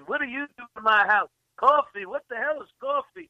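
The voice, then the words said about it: Imitated Southern accent. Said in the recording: “the guy's got a southern accent.”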